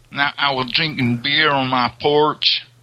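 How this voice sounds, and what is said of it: Put-on Southern American accent. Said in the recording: “That's a, a very southern one.”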